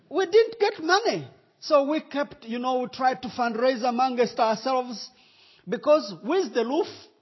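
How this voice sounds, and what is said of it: Rwandan-accented English. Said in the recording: “do you understand Rwandan accent? ... Everybody understands my accent.”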